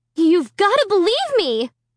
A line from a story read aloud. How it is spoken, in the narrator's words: I shrieked